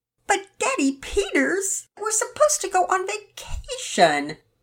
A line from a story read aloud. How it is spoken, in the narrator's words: Penelope was half whining